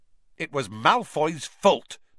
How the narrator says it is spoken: snapped Dean Thomas

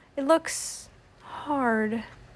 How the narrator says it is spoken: said Daniel softly

